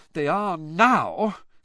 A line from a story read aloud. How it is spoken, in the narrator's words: said Hermione, in an exasperated voice